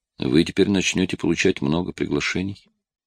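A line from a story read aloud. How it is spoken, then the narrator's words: Quiet. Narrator (Russian): тихо проговорил Рон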